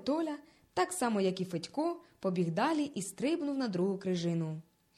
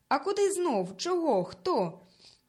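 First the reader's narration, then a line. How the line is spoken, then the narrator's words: Crowd suddenly shouting. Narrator (Ukrainian): раптом закричали люди, побачивши Толю на льоду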